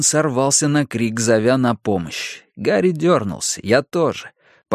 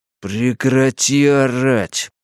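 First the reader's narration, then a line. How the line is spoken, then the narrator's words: Words through gritted teeth. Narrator (Russian): процедил зверюга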